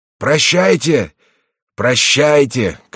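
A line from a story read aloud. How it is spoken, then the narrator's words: Shouting. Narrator (Russian): кричал он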